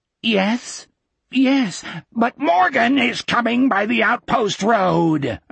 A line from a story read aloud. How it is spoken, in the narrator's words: Osmond screamed